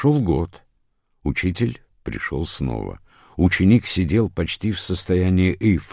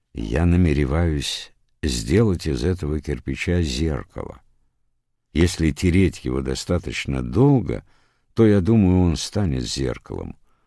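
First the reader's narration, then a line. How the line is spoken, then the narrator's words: Calm reply. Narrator (Russian): Бокудзю спокойно ответил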